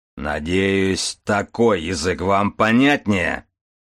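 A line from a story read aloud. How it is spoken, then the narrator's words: Deep bass voice. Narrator (Russian): пробасил Аристарх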